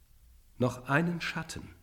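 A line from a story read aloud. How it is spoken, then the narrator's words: Ghost exclaiming. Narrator (German): rief der Geist aus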